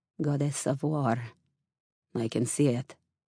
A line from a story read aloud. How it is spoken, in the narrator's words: he said, dropping his voice